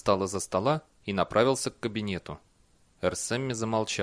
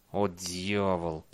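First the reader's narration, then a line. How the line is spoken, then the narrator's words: Muttered through teeth. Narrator (Russian): процедил Бейли сквозь зубы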